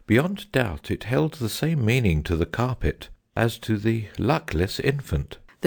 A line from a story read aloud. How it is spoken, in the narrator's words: the phoenix said calmly